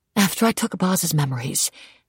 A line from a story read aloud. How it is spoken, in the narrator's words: I whispered against his skin